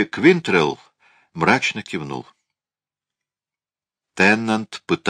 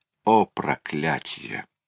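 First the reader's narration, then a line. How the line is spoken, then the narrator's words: Sigh. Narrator (Russian): вздохнул Дюкас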